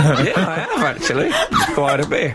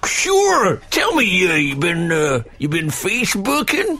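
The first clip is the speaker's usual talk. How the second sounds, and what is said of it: Exaggerated Wild West American accent. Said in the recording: “the only American accent I can do is Wild West Alzheimer”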